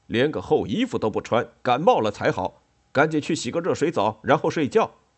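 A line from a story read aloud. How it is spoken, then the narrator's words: Fierce shouting. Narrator (Chinese): 冠太郎一边气势汹汹地往客厅走，一边又吼开了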